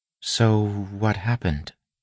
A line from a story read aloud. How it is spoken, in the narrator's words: She asked softly